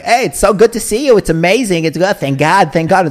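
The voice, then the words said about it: Put-on New York Brooklyn accent. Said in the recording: “they always have a New Yorker accent... why do you speak like a guy from Brooklyn?... they all speak like New Yorkers”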